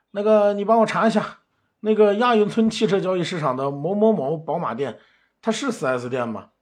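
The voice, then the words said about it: Attempted Gansu-Shaanxi regional accent. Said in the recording (Chinese): “操着浓烈的地方口音，小心翼翼的说道 ... 甘陕地区的口音我学不来啊，大家凑合着听吧”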